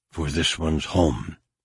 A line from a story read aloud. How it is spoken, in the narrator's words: she whispered